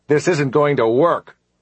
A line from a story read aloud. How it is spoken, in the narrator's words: He said loudly